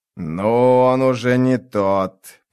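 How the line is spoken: Near growl. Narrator (Russian): почти прорычал Скорч

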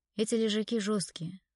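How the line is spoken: Sighing. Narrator (Russian): вздохнул Виктор

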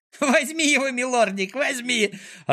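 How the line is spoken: Joyful squeal. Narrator (Russian): радостно завизжал Клопс

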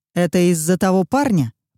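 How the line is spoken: Growl. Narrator (Russian): прорычал

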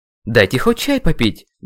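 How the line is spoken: Loud angry outburst. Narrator (Russian): громко вспылил я

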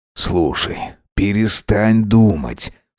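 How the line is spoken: Whisper in the ear. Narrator (Russian): шепнул ему на ухо Макс

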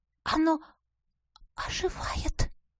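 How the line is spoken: Barely audible breath. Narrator (Russian): выдохнула едва слышно подруга

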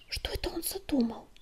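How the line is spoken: Whispering sandstorm. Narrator (Russian): прошептала песчаная буря

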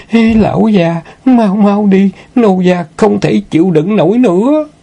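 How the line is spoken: Moaning. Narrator (Vietnamese): Thất Di rên rỉ

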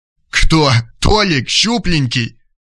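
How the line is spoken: Roaring with laughter. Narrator (Russian): Валерий Панкратович зашелся от хохота

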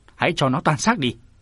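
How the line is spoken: Furious shout. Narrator (Vietnamese): Thiên Sơn Song Sát lúc này càng thêm giận, kim diện sát quát

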